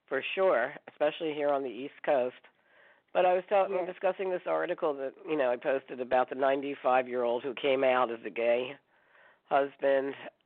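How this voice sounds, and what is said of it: Nasal, congested voice. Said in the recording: “I have a little cold, so I apologize for my nasal sound”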